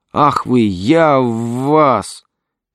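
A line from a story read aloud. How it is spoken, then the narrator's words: Shout then hiss. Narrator (Russian): крикнул и зашипел высокий полицейский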